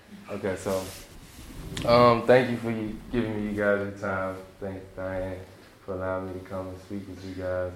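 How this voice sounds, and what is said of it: Speaks with a noticeable foreign accent. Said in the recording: “I know I have a different accent than you guys”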